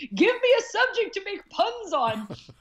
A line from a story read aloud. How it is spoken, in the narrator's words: the first thing I did once I woke up from the anesthesia was I screamed